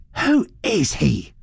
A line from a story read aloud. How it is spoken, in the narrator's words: she demanded fiercely